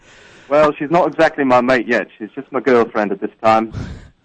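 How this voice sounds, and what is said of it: Bad put-on English accent. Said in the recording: “You picked up an accent already ... one of the worst English accents you've ever heard”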